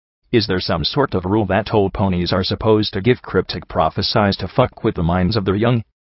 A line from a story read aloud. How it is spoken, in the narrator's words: I asked sharply